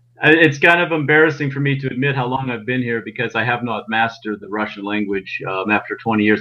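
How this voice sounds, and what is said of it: American Pittsburgh accent. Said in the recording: “you retain a very normal American accent ... It is hard to shake the Pittsburgh accent.”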